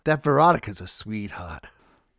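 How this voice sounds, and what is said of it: Slow, methodical Boston accent. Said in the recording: “he said in a Boston accent. ... He spoke with a slow, methodical voice.”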